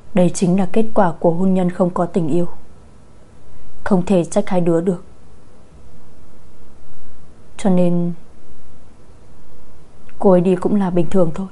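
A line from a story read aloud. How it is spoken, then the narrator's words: Sighing. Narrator (Vietnamese): thở dài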